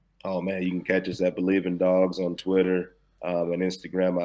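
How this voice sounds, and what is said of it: Hoarse voice from shouting. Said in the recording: “my voice sounds so funny right now because I was hollering and screaming”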